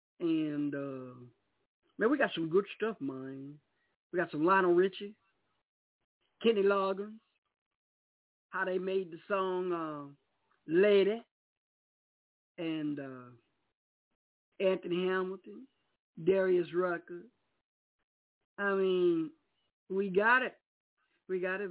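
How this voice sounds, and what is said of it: Put-on American country accent. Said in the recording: “got to talk in my country voice tonight because I'm on the country”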